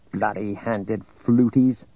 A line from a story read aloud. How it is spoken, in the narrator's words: The senator on Gary's right muttered